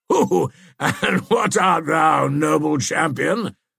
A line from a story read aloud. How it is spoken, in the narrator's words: said Prince John, still laughing